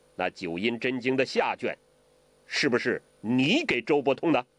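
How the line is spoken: Stern harsh question. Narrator (Chinese): 黄药师厉声地问郭靖

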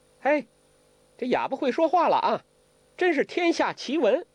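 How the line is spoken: Laughing. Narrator (Chinese): 黄蓉笑了

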